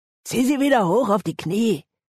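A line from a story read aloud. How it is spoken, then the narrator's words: Growled. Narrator (German): knurrte Ango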